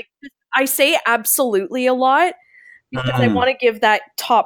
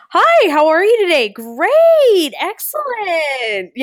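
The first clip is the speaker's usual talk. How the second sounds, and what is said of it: High-pitched cheerful customer service voice. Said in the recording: “customer service voice? ... it goes up about like 2 octaves”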